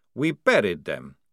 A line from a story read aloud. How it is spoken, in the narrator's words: said Maledict coldly